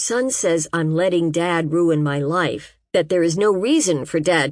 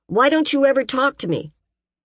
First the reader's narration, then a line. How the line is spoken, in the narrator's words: I started yelling at him, and I yelled and yelled